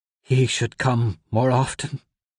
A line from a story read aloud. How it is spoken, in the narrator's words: she told him, her voice a quiver